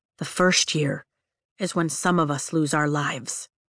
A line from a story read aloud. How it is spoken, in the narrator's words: he says softly